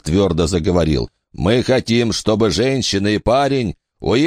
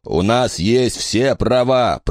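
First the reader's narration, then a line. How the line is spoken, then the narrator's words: Roaring. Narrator (Russian): проревел Сейер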